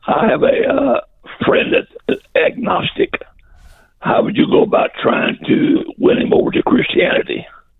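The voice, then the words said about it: Strained, impaired voice. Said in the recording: “pardon my voice, I got vocal cord problems”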